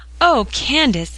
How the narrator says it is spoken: exclaimed Polly

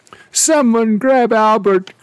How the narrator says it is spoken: cried the steward

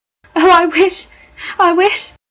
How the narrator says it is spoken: Her sobs stopped her

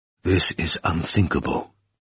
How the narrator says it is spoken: whispered Sleptsov

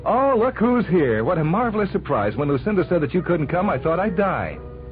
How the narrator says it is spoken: As soon as Enid Bunker saw him, she began to scream

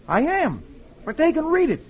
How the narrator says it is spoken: Dick replies cheerfully

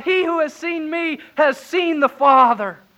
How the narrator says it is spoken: Jesus cried out

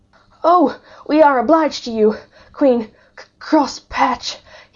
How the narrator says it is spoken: panted out

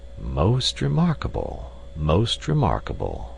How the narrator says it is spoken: he murmured

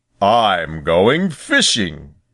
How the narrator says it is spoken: said he in his deep, grumbly, rumbly voice

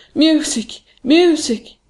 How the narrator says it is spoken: he cried

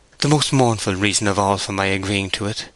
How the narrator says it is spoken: she said sadly

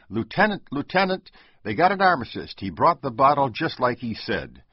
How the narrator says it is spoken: he shoved the awful fear out of his mind, brightened again, and shouted

